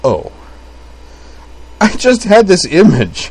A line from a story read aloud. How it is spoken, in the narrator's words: Utena gasped